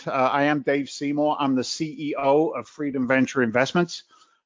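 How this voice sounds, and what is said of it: Strong regional accent. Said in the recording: “my crazy accent”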